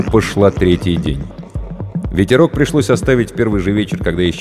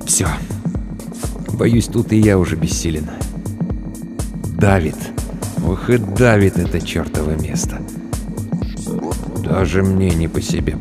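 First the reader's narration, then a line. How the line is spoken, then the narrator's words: Muttering. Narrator (Russian): пробормотал Тахашвили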